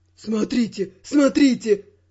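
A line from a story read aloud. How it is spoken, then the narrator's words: Trembling exclamation. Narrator (Russian): Дрогнувшим голосом воскликнул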